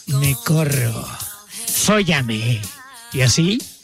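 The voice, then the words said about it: Put-on Spanish-from-Spain accent. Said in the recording (Spanish): “dice como español ... los acentos extranjeros son muy excitantes”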